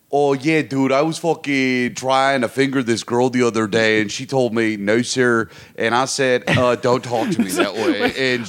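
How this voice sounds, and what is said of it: Baltimore guy character voice. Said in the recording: “There's like a Baltimore guy. There's like a Baltimore Max that I've met”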